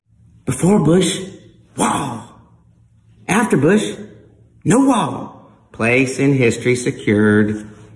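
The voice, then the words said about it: Exaggerated impression of a president's voice. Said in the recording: “my attempt at this impersonation of Dana Carvey impersonating George H.W. Bush ... able to get all the general inflections and mannerisms, slightly exaggerated”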